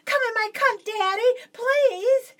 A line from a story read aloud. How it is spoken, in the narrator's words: I quickly screamed out